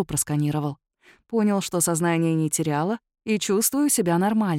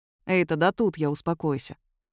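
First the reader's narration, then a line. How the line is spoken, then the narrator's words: Stern. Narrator (Russian): строго сказал Киллиан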